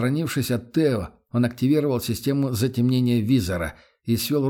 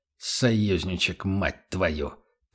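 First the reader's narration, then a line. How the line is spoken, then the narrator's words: Through gritted teeth. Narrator (Russian): процедил Эрих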